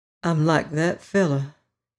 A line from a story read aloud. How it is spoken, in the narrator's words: he said dreamily